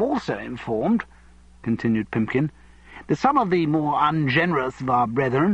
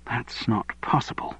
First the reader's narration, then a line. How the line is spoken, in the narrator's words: said Fiona under her breath